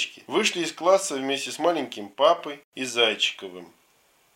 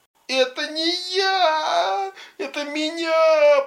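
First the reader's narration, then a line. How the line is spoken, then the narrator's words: Moaning. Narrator (Russian): простонал Зайчиков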